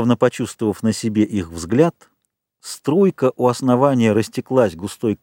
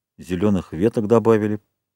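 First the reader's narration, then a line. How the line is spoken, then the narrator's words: Mumbling. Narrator (Russian): пробормотал Ральф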